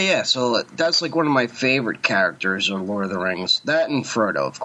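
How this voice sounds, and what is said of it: Usual voice. Nothing is said of it.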